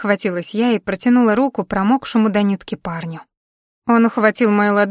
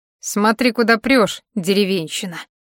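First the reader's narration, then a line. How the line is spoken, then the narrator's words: Smirking young man. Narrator (Russian): хмыкнул парень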